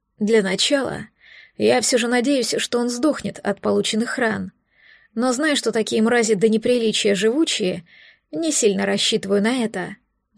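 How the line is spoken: Sighing. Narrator (Russian): вздохнул

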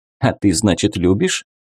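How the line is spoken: Chuckling. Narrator (Russian): хохотнула попаданка

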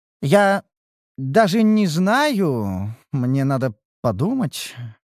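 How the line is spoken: Hesitant statement. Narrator (Russian): заявила Огница неуверенно

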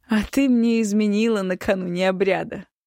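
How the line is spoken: Laughing accusation. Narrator (Russian): смеясь обвинил Эмирас

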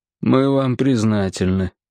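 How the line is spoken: Glum reply. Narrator (Russian): уныло отозвался Нафтали

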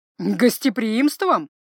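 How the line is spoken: Wizard's snort. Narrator (Russian): хмыкнул маг

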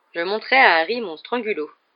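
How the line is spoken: Playful. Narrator (French): dit Lupin d'un ton badin

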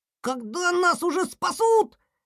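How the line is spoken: Squeaking. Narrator (Russian): пищали лемминги

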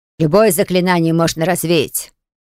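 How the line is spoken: Irritated explaining woman. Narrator (Russian): раздраженно пояснила женщина

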